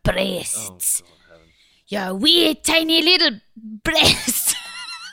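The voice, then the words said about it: Put-on Scottish accent. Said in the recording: “I love saying breasts in Scottish accent.”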